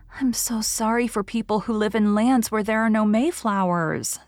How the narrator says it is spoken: said Anne

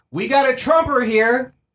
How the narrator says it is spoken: they screamed

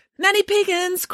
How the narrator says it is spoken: cried a voice

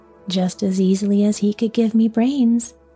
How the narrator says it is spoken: said the scarecrow

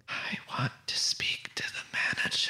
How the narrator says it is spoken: a subtle whisper through the ventilation

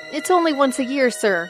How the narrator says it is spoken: pleaded Bob, peering from the tank

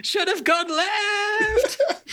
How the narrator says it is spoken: Doik screaming

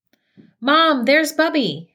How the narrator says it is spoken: she shouted with glee

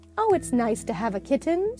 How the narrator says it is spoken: said the little girl happily

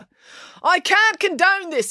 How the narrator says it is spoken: yelled Constable Pike

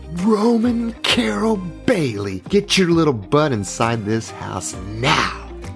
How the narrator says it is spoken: screamed

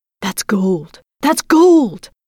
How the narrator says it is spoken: they cried

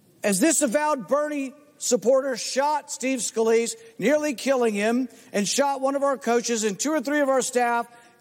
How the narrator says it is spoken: he screamed

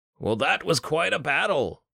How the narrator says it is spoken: his voice boomed from the podium and carried to the ears of everyone seated before him

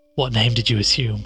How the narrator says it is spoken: asked Helen

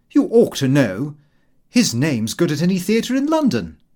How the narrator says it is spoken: I answered rather sharply

